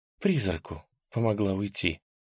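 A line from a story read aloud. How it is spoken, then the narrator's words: Sighing confession. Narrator (Russian): Аня вздохнула и призналась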